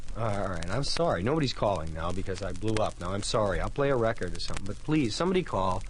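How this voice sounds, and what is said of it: Usual voice. Nothing is said of it.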